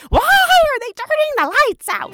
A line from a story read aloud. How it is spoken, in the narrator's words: yell out